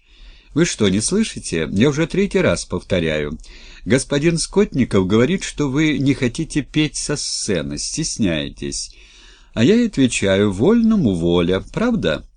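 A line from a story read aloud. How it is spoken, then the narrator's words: Laughing while speaking. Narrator (Russian): Третьякова проговорила, смеясь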